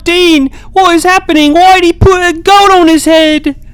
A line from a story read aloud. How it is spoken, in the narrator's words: Susie screamed